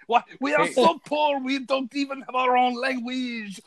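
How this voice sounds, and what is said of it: Put-on French accent. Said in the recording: “you're bringing the French accent home.”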